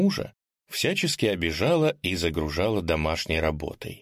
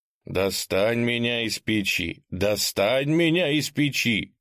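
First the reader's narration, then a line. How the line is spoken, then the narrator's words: Shouting. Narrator (Russian): кричал он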